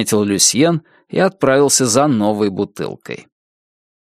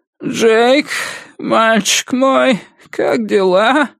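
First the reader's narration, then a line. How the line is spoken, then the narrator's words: Sleepy bleating voice. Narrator (Russian): сонным голосом проблеял тот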